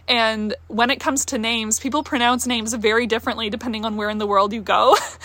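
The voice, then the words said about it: Mixed accent with picked-up twangs. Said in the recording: “I'm one of those people that has a very adaptable accent. Like, I don't fully take over a new accent, but I like pick up little twangs, and that's why I have this weird accent that you hear now”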